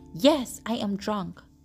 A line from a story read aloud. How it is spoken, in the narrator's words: Dad said loudly